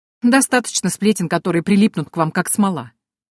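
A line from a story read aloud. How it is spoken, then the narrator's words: Servant's snort. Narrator (Russian): хмыкнул слуга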